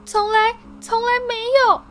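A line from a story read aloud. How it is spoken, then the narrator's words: Crying wail. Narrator (Chinese): 他哭叫道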